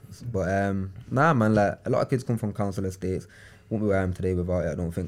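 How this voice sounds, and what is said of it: Manchester accent, not well-spoken. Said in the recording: “I've got an accent that's probably a bit, not road, but a bit ... It's not well-spoken ... it's not Queen's English ... it's Manchester's version of...”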